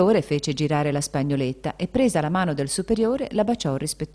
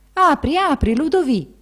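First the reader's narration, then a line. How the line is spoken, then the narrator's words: Abbot exclaiming from outside. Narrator (Italian): L'abate dall'esterno, esclamò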